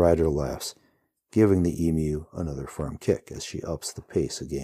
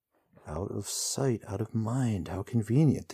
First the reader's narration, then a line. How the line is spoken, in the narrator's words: the hero mutters